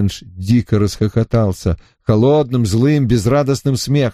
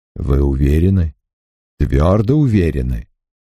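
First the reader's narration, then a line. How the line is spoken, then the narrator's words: Soothing tone. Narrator (Russian): продолжал доктор тем же умиротворяющим тоном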